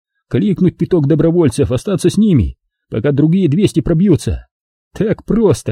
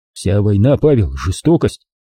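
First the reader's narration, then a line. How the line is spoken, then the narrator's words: Preachy, tedious tone. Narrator (Russian): Роман хотел сказать это мягко, успокаивающе, но фраза прозвучала менторски нудно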